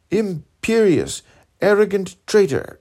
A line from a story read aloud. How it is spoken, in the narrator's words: cried he